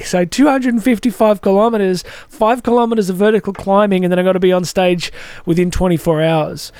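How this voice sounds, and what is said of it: Excited, pumped-up voice. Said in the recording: “you can hear it in my voice. I'm kind of pumped.”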